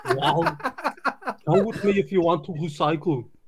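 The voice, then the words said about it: Austrian-accented action-star voice impression. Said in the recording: “Quick, do a Schwarzenegger impersonation. I want to hear a Swedish-Austrian accent. ... That's not bad. That wasn't bad.”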